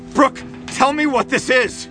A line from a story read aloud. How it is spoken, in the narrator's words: He yells at me